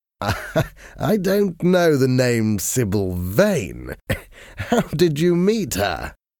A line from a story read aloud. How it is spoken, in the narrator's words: Lord Henry asked, laughing